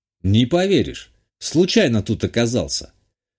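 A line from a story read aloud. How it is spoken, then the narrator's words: Calm reply. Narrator (Russian): спокойно ответил и уточнил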